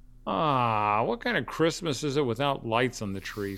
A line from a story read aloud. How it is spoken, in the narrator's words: Sam whined